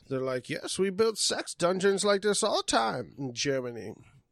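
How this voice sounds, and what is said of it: Attempted German accent. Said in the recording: “I was trying to do a German accent, but I was just like, ooh.”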